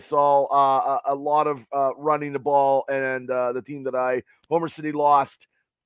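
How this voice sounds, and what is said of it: Slightly raspy, hoarse voice. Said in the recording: “My voice is a little raspy ... I was losing my voice ... that's why my voice is like this”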